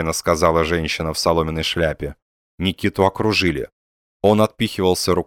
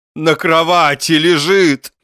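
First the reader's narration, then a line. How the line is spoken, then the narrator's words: Frenzied shouting. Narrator (Russian): исступленно кричал Пряхин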